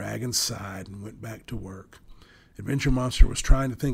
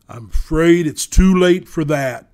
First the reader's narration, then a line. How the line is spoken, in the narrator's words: thundered the voice, shaking the very rocks around them